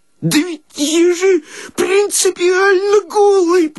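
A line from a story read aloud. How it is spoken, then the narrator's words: Sobbing babble. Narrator (Russian): пролепетал Никудыкин, рыдая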